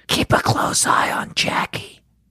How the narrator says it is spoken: Christy whispered to Abby

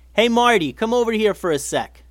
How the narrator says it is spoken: yelled Eli

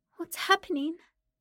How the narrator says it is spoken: he asked, his voice pitiful and small

